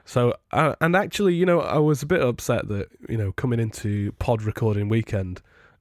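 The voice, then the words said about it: Congested voice from a cold. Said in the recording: “as you might be able to tell from my voice today... I've got a cold... A deep cold.”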